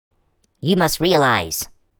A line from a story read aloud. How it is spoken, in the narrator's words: squealed the squat, ugly creature